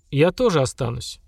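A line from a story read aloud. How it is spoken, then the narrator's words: Calm. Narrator (Russian): спокойно сказала Сильмара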